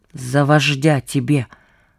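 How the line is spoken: Through clenched teeth. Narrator (Russian): сквозь зубы сказал побратим

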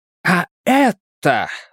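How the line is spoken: Triumphant exclamation. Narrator (Russian): воскликнул он с триумфом

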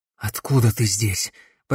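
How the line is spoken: Hoarse rasp. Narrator (Russian): прохрипел он

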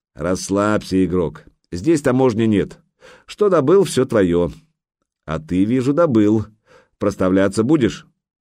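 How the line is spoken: Laughing, deep bass voice. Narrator (Russian): маленький тролль засмеялся и пробасил

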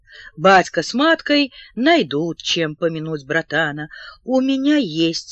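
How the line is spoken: Plain. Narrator (Russian): сказал Леон

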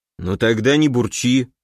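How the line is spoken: Grumble. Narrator (Russian): проворчал клон

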